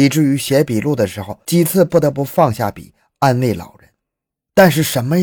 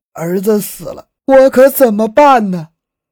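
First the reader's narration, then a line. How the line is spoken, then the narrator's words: Wailing, sobbing loudly. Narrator (Chinese): 死者的母亲……嚎啕大哭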